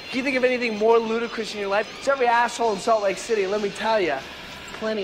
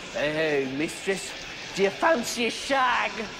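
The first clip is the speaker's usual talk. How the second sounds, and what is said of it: Mock English accent. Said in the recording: “put on some kind of stupid fucking accent ... stupid little English twang”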